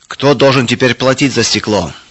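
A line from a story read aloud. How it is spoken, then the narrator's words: Shouting. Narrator (Russian): кричал Эрих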